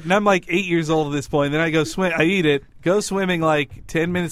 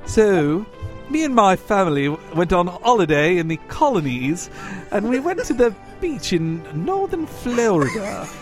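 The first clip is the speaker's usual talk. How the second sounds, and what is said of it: Put-on British accent. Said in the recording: “can you tell that same story except with a British accent?”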